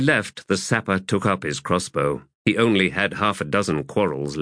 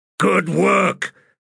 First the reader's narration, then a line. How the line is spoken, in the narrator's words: barked out Hedge to his archers